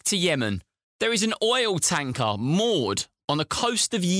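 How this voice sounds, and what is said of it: Usual voice. Nothing is said of it.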